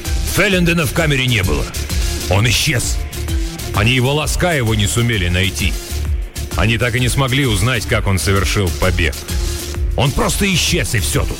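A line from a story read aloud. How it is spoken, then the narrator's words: Shouted. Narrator (Russian): как закричит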